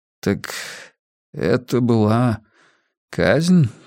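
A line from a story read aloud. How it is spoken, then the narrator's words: Hoarse question. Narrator (Russian): хрипло спросил министр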